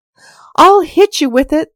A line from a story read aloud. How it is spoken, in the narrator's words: the T's shouted